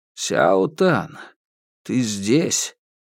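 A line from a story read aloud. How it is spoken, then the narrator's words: Hoarse voice over headphones. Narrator (Russian): в наушниках раздалось хриплое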